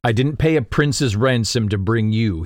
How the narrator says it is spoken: he said

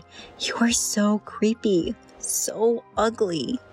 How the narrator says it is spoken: whispered

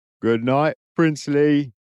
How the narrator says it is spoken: Rhys called out loud enough for him to hear

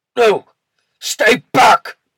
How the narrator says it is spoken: Kybeck shouted

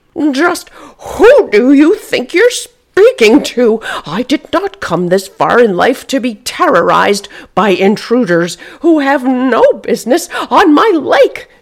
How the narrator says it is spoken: yelled

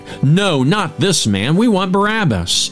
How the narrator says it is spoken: But they shouted back

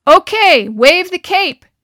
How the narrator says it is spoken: Harry shouted, grinning back over his shoulder at John

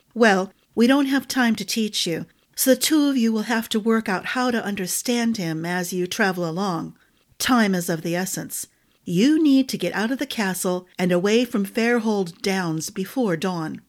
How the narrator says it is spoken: she sighed

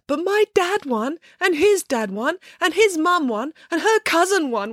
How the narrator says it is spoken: wailed Matilda

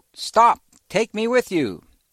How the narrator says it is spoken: shouted to the UFO

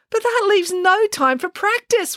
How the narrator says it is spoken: wailed Samantha

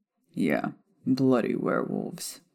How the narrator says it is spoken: Sirius chuckled

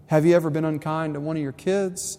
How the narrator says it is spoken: Fred asked

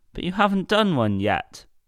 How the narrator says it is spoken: grumbled Mr

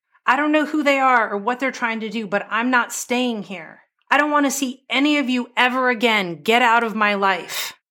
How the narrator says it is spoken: John was yelling

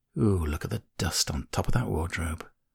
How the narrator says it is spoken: she sighs and mutters

